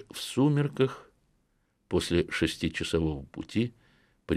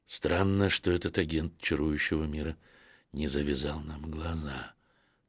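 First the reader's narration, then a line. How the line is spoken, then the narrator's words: Whispered. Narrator (Russian): тоже шепотом сказал я Стефану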